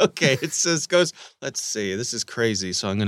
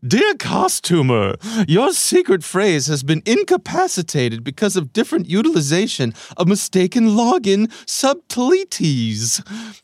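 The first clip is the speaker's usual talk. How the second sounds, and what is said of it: Exaggerated crazy reading voice. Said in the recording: “I'm going to do a crazy voice”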